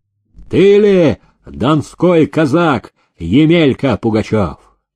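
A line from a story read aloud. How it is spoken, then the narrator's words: Sharp call out. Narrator (Russian): Архаров окрикнул осужденного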